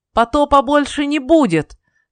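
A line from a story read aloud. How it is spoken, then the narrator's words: Loud shout. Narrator (Russian): громко крикнул Ной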